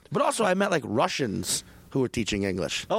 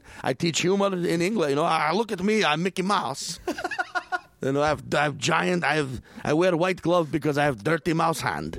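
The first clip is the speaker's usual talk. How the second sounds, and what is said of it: Mock Russian accent in English. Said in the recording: “speaking English with a Russian accent”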